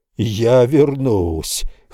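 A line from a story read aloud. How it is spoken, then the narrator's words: Hoarse shout. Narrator (Russian): хрипло прокричал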